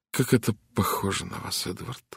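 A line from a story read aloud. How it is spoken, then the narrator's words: Sighing. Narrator (Russian): вздохнула Митч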